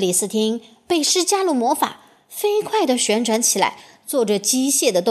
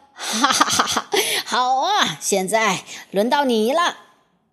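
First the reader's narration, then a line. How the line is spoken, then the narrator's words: Wild laughter. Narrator (Chinese): 冰雪女皇狂笑着说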